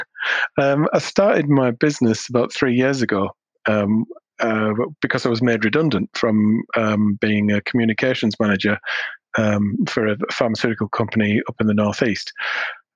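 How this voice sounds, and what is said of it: Northern English accent. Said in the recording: “you might hear a bit of my northern twang coming out in my voice”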